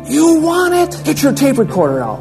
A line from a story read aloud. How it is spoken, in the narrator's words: he screamed at me